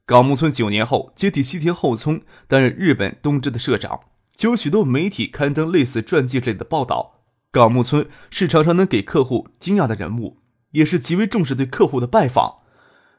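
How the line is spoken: Smiling. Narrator (Chinese): 张克笑着说

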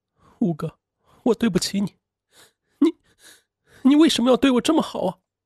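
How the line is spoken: Sobbing uncontrollably. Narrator (Chinese): 李月琪失声痛哭

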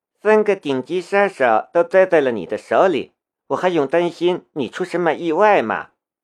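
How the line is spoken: Wry smile. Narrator (Chinese): 夏雷苦笑了一下

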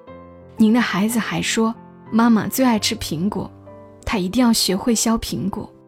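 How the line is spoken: Choked, low voice. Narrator (Chinese): 老师忽然哽咽了，他低声说

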